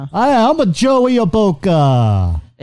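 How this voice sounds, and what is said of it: Heavy put-on Italian accent. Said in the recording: “like an Italian guy, Joey Boca. So he's got this like a heavy Italian accent.”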